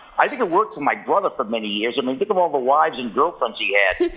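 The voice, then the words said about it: Boston accent. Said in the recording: “have you in your life of having a Boston accent”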